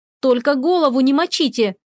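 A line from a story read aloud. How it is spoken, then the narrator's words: Shouting after someone. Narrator (Russian): крикнула вдогонку Рина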